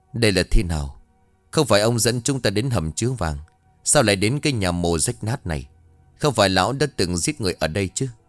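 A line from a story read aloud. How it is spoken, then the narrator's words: Suspicious, cold question. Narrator (Vietnamese): Có chút nghi ngờ, Henry lạnh lùng hỏi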